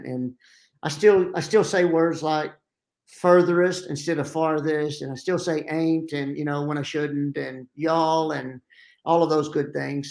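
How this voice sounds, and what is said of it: Southern American accent. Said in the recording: “I still have my Southern accent”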